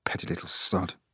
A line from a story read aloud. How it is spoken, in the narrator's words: he mutters